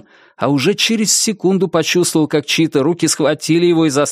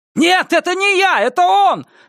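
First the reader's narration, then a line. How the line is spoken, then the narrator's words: Shouted. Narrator (Russian): закричал он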